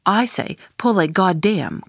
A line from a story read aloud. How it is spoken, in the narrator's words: cried the Indian